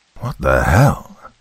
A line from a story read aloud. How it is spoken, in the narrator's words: Ben whisper under his breath